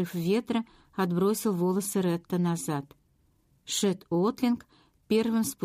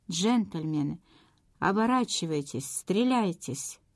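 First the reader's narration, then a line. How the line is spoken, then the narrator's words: Resonant command. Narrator (Russian): Звучным голосом Джон Хейнс скомандовал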